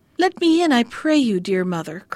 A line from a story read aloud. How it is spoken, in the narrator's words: cried he